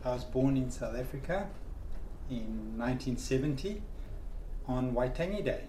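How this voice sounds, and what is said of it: Strong foreign accent. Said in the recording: “you've got a strong accent there”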